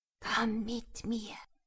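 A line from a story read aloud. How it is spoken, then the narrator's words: Clear whisper. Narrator (German): flüsterte ganz deutlich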